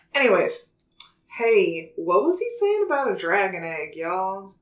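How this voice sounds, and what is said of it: Exaggerated put-on Southern accent. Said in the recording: “My southern accent's gotten progressively more extra throughout the course of this podcast ... You sound like fucking Applejack from My Little Pony”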